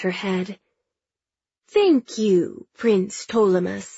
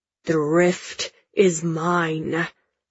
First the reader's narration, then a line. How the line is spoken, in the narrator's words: Father growls, sounding like one of Mother's beasts